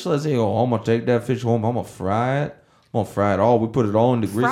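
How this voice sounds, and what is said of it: Poor put-on Cajun accent. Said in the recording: “I can't do a good Cajun accent.”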